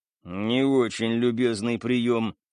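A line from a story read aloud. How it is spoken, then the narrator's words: Grumbled. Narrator (Russian): проворчал Стас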